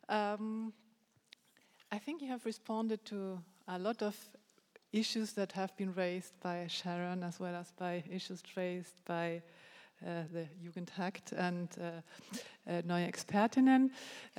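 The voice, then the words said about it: German-Spanish accented English. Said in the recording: “my kind of German-Spanish bizarre accent”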